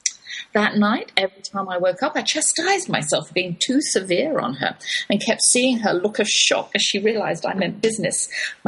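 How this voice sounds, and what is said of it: English accent, stern-sounding. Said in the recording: “My English accent makes me sound stern sometimes.”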